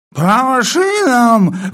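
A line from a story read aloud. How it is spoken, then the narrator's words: Sleepy roar. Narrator (Russian): взревел вдруг полковник, не просыпаясь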